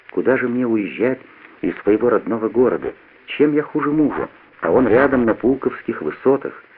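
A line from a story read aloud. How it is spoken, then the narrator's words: Quiet reply. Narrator (Russian): отвечает тихо так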